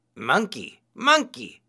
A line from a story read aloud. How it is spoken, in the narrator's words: he cried